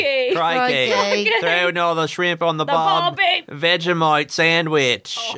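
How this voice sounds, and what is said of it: Put-on Australian accent. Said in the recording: “Can you guys do ... an Australian accent?”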